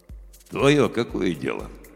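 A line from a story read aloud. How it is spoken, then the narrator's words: Calm question. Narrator (Russian): спокойно спросил он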